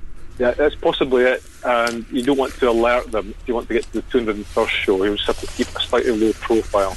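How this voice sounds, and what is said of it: Scottish accent. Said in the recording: “So lovely to hear Scottish brogue.”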